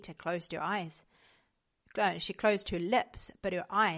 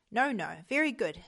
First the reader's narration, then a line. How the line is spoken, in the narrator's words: Stenberg said